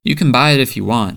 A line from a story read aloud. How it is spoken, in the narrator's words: she says